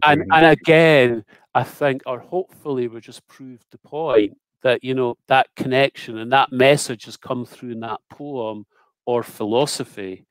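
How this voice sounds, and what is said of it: Cultured Scottish accent. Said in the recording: “I love your cultured accent ... The Scottish side of my family come from Glasgow. It's a little bit harsher.”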